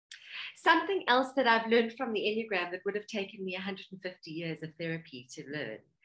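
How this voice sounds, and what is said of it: South African accent. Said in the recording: “all the way from South Africa. You'll love her beautiful accent.”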